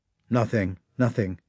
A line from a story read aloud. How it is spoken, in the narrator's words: replied Rostov